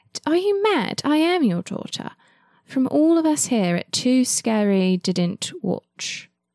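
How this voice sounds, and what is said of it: Weak put-on British accent. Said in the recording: “And a British accent, I think I will do. ... God, it wasn't good.”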